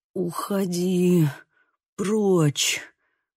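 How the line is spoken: Wheezing rasp. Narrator (Russian): просипел он

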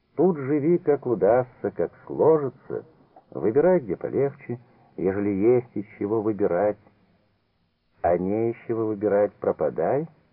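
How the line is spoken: Plain. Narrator (Russian): сказал Петр

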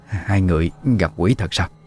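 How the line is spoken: Trembling voice. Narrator (Vietnamese): Giọng bà run run

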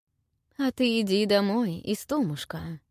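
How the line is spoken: Almost tender reply. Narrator (Russian): ответил Желан почти ласково

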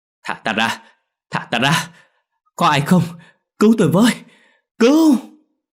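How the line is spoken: Muffled desperate moaning. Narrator (Vietnamese): Tiếng la hét của Đình Quân vẫn vang lên không ngớt, nhưng vì miệng bị khâu nên nó chỉ là những tiếng rên rỉ vô vọng

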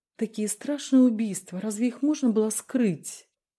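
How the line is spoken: Hypocritical sigh. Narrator (Russian): Толкачев как показалось Дронго, лицемерно вздохнул

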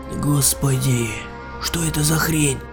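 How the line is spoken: Stunned whisper. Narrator (Russian): пораженно прошептал Олег

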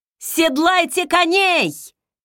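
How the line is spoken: Shout. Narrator (Russian): крикнула

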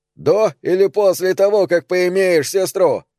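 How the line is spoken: Shout. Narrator (Russian): крикнул Билли

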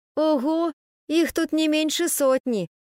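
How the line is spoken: Glum. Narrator (Russian): уныло сказал Немо

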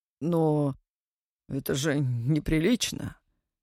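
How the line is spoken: Bewildered. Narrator (Russian): растерянно произнес он

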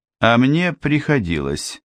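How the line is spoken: Gloomy. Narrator (Russian): сказал Ипсон мрачно

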